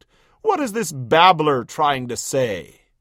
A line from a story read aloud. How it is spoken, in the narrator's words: sneered